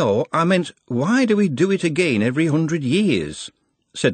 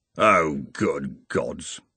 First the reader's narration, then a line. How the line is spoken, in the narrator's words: The senior wrangler murmured